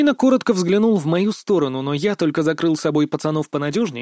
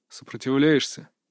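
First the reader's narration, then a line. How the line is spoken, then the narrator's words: Cold, smiling. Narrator (Russian): Также холодно улыбнулся маг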